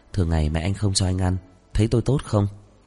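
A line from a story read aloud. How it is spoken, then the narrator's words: Quiet, smiling. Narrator (Vietnamese): Dư Y cười tủm tỉm, nhỏ giọng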